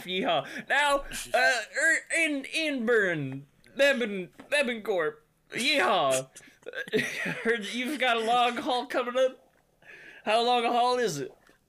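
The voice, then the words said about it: Put-on cowboy accent. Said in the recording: “Is the cowboy accent making it so he can't think straight?”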